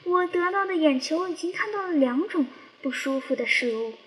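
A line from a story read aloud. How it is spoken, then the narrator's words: Disappointed long sigh. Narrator (Chinese): 金笼子失望的长叹一声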